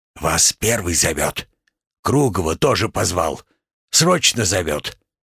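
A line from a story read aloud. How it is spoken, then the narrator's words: Sleepy boy's loud whisper. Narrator (Russian): Заспанный парнишка, склонившись к уху южанина, громко прошептал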